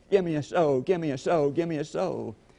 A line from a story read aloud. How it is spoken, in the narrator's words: shouting